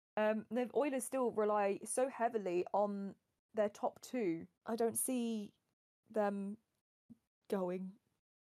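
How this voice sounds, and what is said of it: Strained voice giving out. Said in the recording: “my voice is going... RIP her voice”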